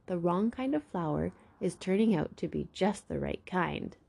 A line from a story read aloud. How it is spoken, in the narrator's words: Shine laughed